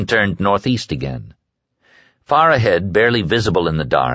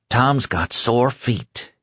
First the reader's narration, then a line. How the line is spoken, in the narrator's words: he whispered to himself, but not without some cheeriness